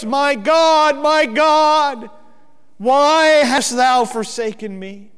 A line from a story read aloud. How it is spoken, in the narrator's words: He shouted out in a loud voice